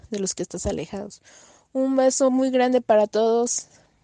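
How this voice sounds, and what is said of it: Mexican Spanish accent. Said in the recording (Spanish): “qué acento más bonito de culebrón ... Qué bonito es el acento mexicano ... es encantador ese acento ... es un acento que nos llega”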